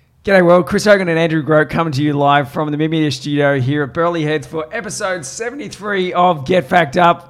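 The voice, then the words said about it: Strained, hoarse voice. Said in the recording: “I'm already losing my voice.”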